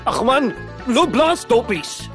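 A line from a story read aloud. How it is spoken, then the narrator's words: Frustrated shouting. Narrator (Afrikaans): het Gerry gefrustreerd geskreeu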